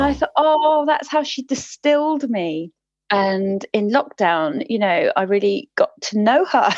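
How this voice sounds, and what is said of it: Usual voice. Nothing is said of it.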